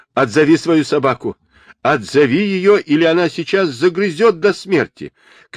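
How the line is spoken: Shouting. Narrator (Russian): кричал мистер Барлинг

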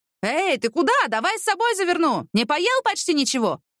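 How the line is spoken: Shouted. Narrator (Russian): закричал Алик вслед убегающему Виталию Николаевичу

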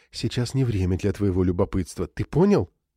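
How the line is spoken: Trembling voice. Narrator (Russian): добавив дрожащим голосом

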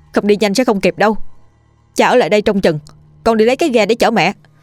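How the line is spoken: Loud urging. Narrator (Vietnamese): lớn tiếng dục cha mình

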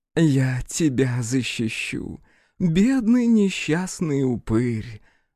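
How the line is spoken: Honeyed singsong. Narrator (Russian): медовым голосом пропела Елецкая

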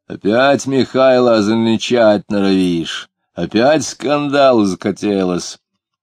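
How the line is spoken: Stern bass. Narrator (Russian): чернобородый, лысый, сказал строгим басом

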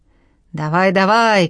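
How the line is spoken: Old commander shouting with strain. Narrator (Russian): кричал седой воевода, красный от напряжения

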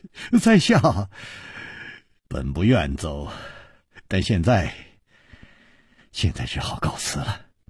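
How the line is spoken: Sighing, wry smile. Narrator (Chinese): 楚留香叹了一口气，苦笑着说

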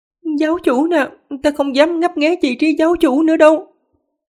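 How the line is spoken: Trembling, terrified. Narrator (Vietnamese): Tư Vân Hương rùng mình vài lần, run rẩy nói

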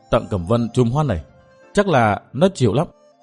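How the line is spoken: Smiling mutter. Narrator (Vietnamese): bóng đen mỉm cười lẩm bẩm

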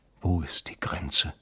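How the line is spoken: Whispering. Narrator (German): hatte er geflüstert

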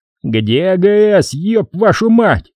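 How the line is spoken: Furious yell. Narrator (Russian): заорал ротный

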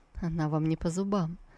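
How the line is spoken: Mocking whisper. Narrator (Russian): Тан Тайцзинь, глядя вслед Сусу, ее спутником насмешливо прошептал

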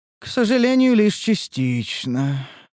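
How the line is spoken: Sorrowful sigh. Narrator (Russian): вздохнула Лия горестно

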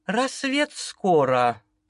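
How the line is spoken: Gentle whisper. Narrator (Russian): Почти ласково прошептала Галина

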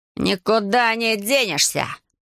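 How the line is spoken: Growling. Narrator (Russian): прорычал Рейца

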